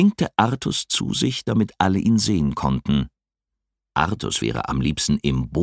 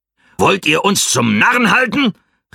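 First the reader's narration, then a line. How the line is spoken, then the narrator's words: Old man calling. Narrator (German): rief ein alter Mann mit weißem Haar und weißem Bart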